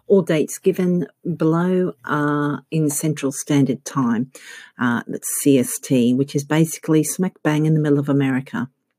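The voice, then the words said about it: Australian accent. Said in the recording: “You can probably tell from my accent that I'm not American, I'm actually Australian.”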